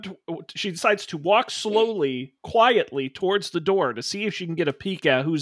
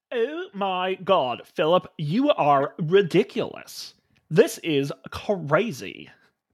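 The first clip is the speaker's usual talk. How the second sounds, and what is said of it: Valley girl character voice. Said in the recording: “Madison has a voice. ... She's a Valley girl.”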